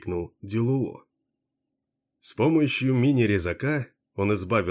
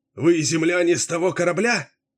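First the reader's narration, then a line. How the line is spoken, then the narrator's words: Shouting. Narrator (Russian): выкрикнул он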